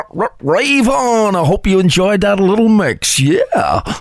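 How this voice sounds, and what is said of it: Radio DJ voice. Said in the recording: “That's his DJ voice”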